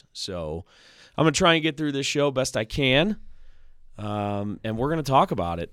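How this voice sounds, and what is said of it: Hoarse, strained voice. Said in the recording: “I don't really have a voice. It's very hoarse.”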